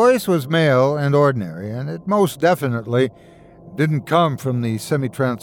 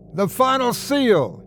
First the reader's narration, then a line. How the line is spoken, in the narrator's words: he yelled